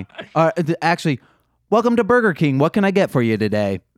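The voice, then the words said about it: Customer service intercom voice. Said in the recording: “No, this was my customer service voice. ... That was that's my intercom voice from Burger King.”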